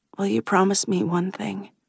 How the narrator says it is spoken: I whisper

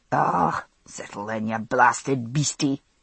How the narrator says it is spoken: he remarked to the mare

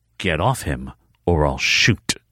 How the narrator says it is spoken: Savannah said in a low voice

